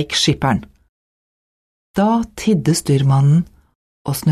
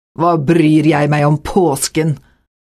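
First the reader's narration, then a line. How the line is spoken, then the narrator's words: Angry reply. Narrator (Norwegian): svarte skipperen sint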